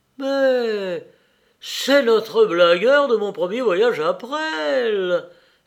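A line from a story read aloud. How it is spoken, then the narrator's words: Exclaimed. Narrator (French): s'écria Joseph Bridau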